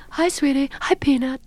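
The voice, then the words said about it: Meryl Streep impression. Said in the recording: “Did you ever mimic Meryl Streep?”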